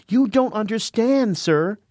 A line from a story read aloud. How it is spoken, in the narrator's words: she cried